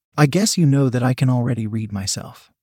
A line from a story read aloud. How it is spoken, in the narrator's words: I said in a sweet tone